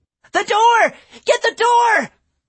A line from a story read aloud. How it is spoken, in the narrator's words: the girl screamed